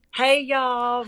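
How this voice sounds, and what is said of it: Put-on Southern American twang. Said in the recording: “I always try to do the Southern twang. Or is it twang?”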